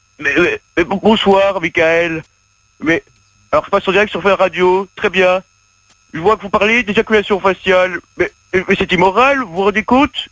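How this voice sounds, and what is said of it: Imitates another person's voice. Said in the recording (French): “fais-nous Hollande pour voir ... il y a un petit truc quand même. Il faut travailler, mais il y a un petit truc ... elle est bien”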